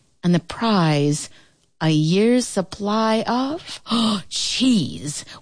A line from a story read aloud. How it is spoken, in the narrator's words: William exclaimed